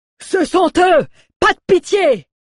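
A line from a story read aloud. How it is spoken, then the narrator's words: Yell. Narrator (French): hurla l'un d'eux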